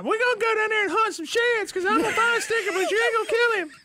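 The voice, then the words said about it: Impersonation of a woman friend. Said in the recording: “Greatest Boat Girl impersonation ... ever.”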